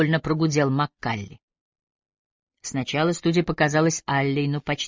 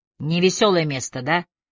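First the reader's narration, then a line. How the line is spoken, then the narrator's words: Wry snort. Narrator (Russian): хмыкнул Маккалли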